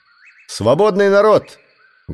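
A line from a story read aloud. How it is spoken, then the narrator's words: Loud voice. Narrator (Russian): громко прозвучал его голос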